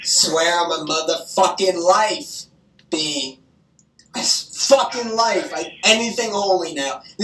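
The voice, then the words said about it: Emotional, upset voice. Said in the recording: “I'm getting emotional”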